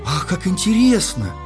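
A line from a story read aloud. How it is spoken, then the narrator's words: Exclamation. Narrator (Russian): воскликнула принцесса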